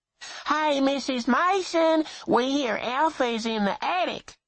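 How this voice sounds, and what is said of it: High nasal twang. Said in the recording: “He recognized the high nasal twang.”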